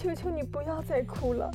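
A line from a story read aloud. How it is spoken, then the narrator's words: Tearful woman's voice. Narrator (Chinese): 女人带着哭腔的声音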